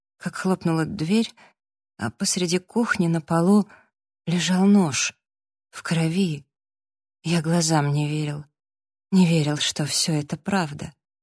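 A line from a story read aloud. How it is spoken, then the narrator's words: Barely audible. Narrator (Russian): сказал Джастин чуть слышно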